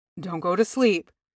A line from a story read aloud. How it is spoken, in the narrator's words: he murmured